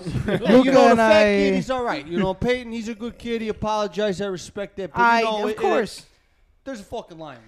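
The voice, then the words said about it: Put-on exaggerated ethnic accent. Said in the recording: “they started doing that racist accent”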